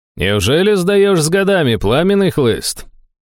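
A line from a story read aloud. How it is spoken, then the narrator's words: Cheerful distant call. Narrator (Russian): Весело окликнул из галереи знакомый голос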